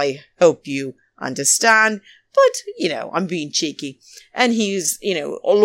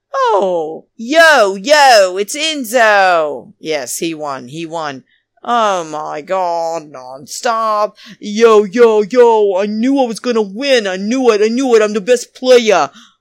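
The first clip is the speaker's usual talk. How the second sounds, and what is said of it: Weak put-on New Jersey accent. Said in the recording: “I don't do a very good Jersey accent.”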